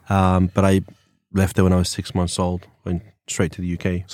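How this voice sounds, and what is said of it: English accent. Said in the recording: “originally from England ... So this is a real accent”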